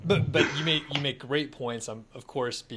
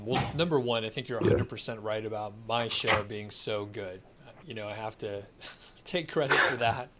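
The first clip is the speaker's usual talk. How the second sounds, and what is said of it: Sarcastic tone. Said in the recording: “being sarcastic”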